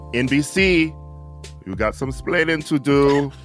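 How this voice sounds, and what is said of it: Ricky Ricardo impression accent. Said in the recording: “Can you do that accent? ... I'm just doing Ricky Ricardo.”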